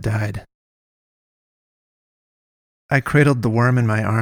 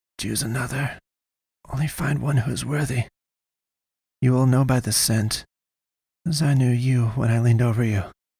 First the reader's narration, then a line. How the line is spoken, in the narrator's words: breathed